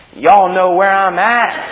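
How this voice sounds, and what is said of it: Put-on American accent. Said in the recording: “I put on my best American accent for him.”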